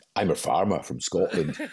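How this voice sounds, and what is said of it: Put-on Scottish accent. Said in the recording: “Sorry about my accent there.”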